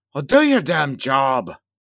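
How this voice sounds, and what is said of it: Put-on Scottish accent. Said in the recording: “I don't know why I keep trying to give Ged a Scottish accent.”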